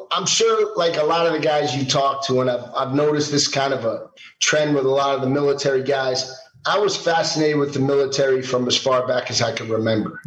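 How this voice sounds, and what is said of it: New York accent. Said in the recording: “New York City, as you can probably tell by my accent.”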